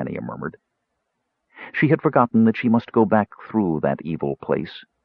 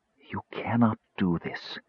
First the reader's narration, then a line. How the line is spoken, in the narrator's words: Crisania whispered